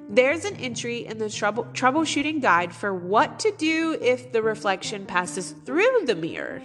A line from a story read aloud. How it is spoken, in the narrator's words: she cried triumphantly